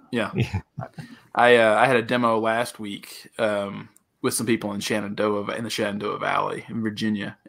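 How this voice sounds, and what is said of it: Southern American English accent. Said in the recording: “I'm still speaking English, but I'm speaking Southern English, you know, and I enunciate that.”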